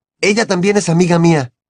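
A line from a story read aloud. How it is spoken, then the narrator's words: Muffled underwater shout. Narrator (Spanish): gritó Harry, sin echar por la boca más que una enorme burbuja plateada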